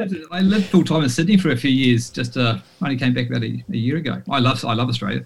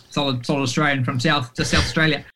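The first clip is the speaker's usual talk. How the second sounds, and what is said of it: Put-on Australian accent. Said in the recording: “There it was. He nailed that. That's actually pretty good. He could pretty pull that off.”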